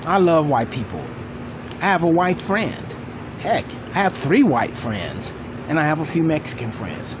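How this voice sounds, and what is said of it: Black American dialect. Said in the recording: “I have a lot of black friends because I'm black. In fact, you can probably hear the dialect in my voice.”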